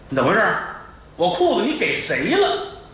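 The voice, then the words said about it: Shouting angrily. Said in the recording (Chinese): “你别喊，黑更半夜的，孩子睡觉，街坊都听见啊！”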